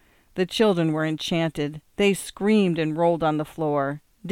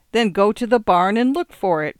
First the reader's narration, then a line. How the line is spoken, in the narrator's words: cried Mr